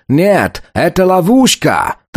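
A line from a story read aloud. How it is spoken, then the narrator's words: Desperate shout. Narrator (Russian): Англичанин отчаянно закричал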